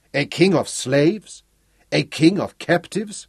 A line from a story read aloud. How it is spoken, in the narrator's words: He laughed abruptly, scornfully